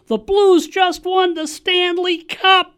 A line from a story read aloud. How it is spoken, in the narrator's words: jumping around in circles screaming